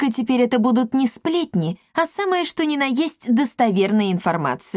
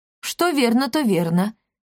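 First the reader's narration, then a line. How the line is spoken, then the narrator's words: Short chuckle. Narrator (Russian): хохотнул Акаций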